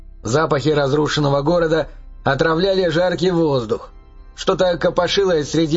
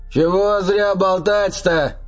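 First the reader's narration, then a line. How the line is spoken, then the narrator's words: Shouted. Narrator (Russian): крикнул Гризби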